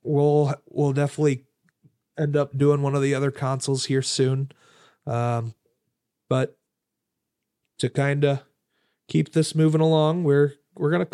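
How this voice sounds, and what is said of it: Cracky, slightly raspy tired voice. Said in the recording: “My voice is starting to get a little cracky now ... Get a little raspy.”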